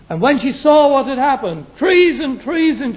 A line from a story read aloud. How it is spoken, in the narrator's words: she cried